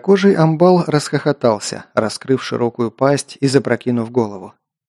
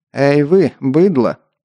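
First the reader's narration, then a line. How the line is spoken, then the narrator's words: Arrogant, through teeth. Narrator (Russian): высокомерно процедил я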